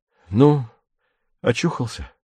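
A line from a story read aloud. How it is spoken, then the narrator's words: Unexpectedly gentle. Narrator (Russian): неожиданно мягко говорит Виктор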